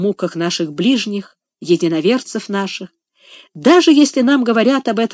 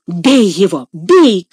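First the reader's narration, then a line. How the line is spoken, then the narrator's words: Shouted. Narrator (Russian): крикнул Легри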